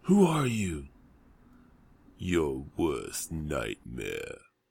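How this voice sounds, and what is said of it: Gravelly action-hero movie impression. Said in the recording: “try your Rambo nightmare voice”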